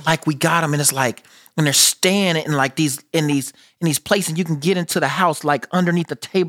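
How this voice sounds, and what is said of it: American accent. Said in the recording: “this American accent”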